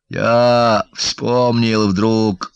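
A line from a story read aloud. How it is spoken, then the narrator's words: Father, muffled voice. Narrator (Russian): глухо заговорил отец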